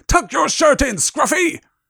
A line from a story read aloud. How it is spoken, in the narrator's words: ghoul howled